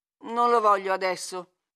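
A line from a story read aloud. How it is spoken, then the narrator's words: Vehement grumble. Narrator (Italian): brontolò impetuosamente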